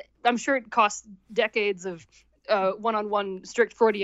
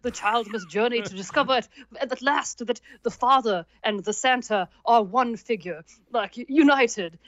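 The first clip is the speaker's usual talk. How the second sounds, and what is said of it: Mock Freud accent impression. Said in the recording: “my Freud accent needs serious work. ... It's an uncanny impersonation.”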